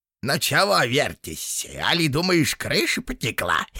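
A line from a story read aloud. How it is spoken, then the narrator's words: Shrill giggling. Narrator (Russian): И голос визгливо захихикал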